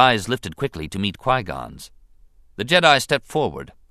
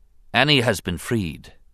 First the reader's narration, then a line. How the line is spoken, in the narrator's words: he said